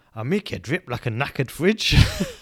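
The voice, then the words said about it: Put-on Scottish accent. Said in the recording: “there's a Scottish fellow on. ... I'm ready for the accent.”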